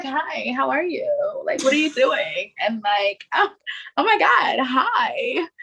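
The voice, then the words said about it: Flirty, sultry imitation of a friend. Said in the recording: “my imitation. Brittiany will be like, hi, like oozing sex.”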